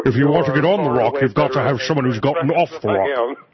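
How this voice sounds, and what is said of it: Sean Connery impression. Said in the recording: “you're not allowed to quote Sean Connery on this program without doing an impersonation.”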